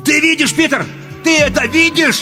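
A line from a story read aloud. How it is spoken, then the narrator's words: Shouting. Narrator (Russian): я кричал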